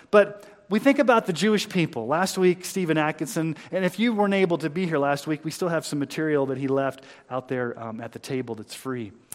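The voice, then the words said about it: Mixed Missouri-Texas American accent. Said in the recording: “my weird accent ... It's like half Missouri, half Texas, and half I don't know what it is.”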